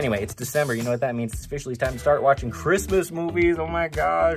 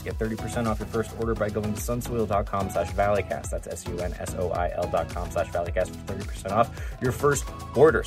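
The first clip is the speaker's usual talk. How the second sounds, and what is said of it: Speaking very fast. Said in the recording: “I know I'm saying it fast”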